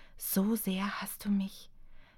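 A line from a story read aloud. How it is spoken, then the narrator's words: Whisper. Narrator (German): Seine Stimme war nur ein Wispern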